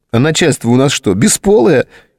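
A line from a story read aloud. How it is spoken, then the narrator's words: Giggle. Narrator (Russian): хихикнула Ольга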